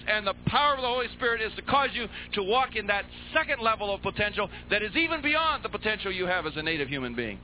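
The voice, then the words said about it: Shouting preacher. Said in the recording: “why am I shouting?”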